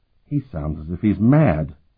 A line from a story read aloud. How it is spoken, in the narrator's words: Curic muttered